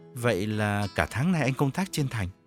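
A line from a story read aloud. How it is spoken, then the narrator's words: Stammering, gentler probing tone. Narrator (Vietnamese): Gã ú ớ dò hỏi bằng một giọng hòa hoãn hơn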